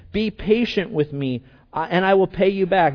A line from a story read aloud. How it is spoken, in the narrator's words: His fellow servant begged him